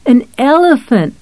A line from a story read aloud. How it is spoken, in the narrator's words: Cynthia laughed